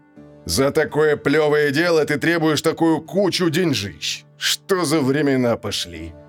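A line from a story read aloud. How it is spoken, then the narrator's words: Grumbling. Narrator (Russian): ворчал Гозма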